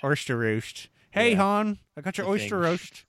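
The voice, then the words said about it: Baltimore accent. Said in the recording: “That was good, man... Baltimore accents”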